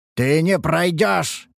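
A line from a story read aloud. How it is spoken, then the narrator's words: Growl. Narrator (Russian): рыкнул я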